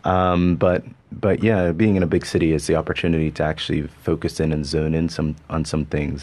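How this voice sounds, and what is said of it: Mixed Canadian and Bermudian accent. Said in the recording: “my accent's all over the place. It's part Canadian, part Bermudian, part all sorts of stuff.”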